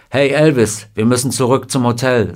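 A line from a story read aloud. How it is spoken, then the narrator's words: Plain. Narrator (German): sagte Junior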